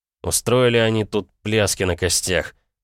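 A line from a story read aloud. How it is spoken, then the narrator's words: Grumbling. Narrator (Russian): проворчал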